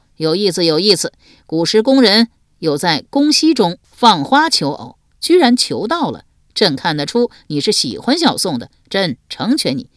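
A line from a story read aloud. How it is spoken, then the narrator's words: Hearty laughter. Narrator (Chinese): 皇上哈哈大笑道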